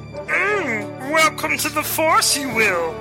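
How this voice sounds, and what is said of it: Star Wars character voice impression. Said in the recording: “Star Wars impersonators. We can do all your favorite voices.”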